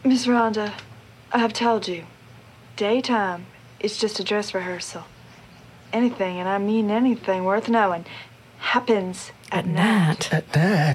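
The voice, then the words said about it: Unconvincing fake Southern accent. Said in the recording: “See how authentic her weird Southern accent is ... no. ... Bad.”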